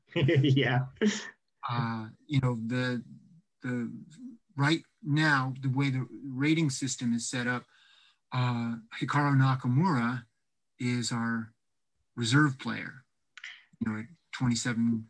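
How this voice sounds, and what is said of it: Understated British accent impression. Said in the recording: “my best in impression of understated Britishman”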